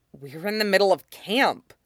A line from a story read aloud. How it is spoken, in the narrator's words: he hisses